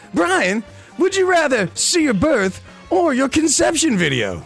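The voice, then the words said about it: Game show host voice. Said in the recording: “Are you doing the world's worst Harry Carey impression? ... Maybe this is my game show voice.”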